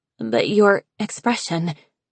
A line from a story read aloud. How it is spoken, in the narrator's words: Cricket stammered